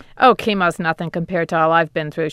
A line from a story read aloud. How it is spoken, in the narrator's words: laughed